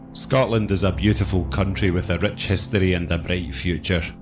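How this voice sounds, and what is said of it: Scottish accent. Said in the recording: “True Crime Scotland ... the accent is fab. It's up there with Barry's from Extraordinary Stories”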